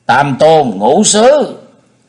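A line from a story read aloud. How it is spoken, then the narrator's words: Loud threatening. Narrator (Vietnamese): Thiết Mộc Lê lớn tiếng dọa người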